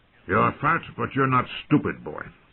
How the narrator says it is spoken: the old bear said gruffly

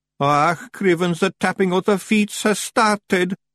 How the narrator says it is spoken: moaned Daft Woolly

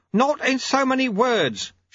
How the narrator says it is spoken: shouted Lutze

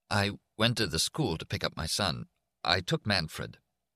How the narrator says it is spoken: Jack Boland said in an uneven voice

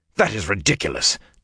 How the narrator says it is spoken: Tom snapped

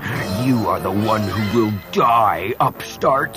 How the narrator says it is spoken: she growled

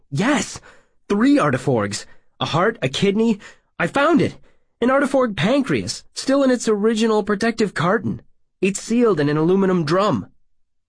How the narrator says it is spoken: Excitedly, like an overjoyed, enthralled small boy, said

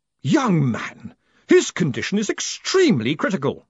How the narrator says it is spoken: she snapped

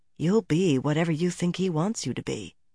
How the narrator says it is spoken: a small voice whispered

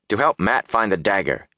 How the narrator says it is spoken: he said sharply

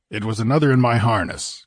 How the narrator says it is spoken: grunted Conan

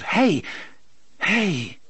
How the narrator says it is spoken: The boy cried out

